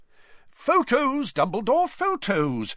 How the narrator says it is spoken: cried Bagman excitedly

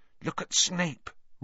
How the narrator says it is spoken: Ron hissed in Harry's ear

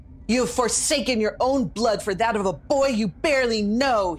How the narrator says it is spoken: he snarled

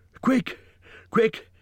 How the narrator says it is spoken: he gasped

